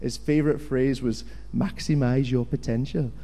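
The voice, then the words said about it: Welsh accent imitation. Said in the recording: “That's a pretty good Welsh accent there.”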